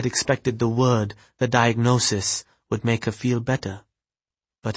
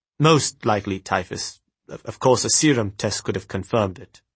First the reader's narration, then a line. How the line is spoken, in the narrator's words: he stammered